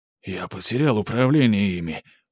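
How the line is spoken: Hissed. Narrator (Russian): прошипел погонщик

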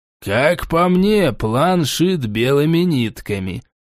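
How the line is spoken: Grumbling. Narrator (Russian): проворчал Гримжоу

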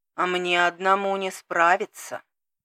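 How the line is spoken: Old man's sigh. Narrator (Russian): вздохнул дед

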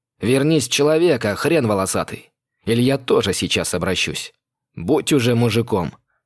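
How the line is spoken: Barking. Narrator (Russian): рявкнул я

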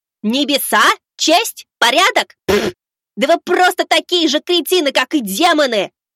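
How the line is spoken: Furious yell. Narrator (Russian): заорал я

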